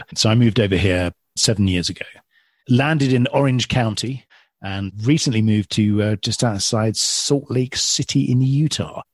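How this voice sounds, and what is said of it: English accent. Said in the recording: “your accent ... I'm originally from just outside London in England”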